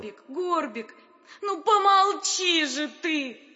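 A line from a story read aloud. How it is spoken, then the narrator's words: Pleading. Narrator (Russian): уговаривала его принцесса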